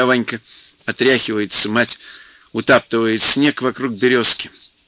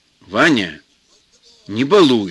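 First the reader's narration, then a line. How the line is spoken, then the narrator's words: Stern mother. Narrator (Russian): строго говорит мать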